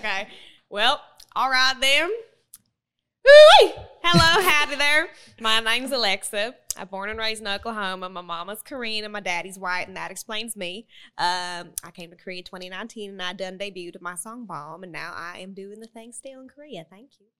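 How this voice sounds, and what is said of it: Put-on Southern US accent. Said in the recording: “introduce yourself in a southern accent ... was that a real accent from Oklahoma? Is that really how they talk?”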